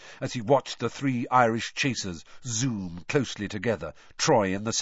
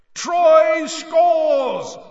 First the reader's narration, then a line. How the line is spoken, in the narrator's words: roared Bagman